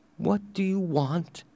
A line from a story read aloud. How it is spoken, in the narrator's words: she asked weakly